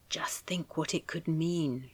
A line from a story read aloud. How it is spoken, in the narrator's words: she said, lowering her voice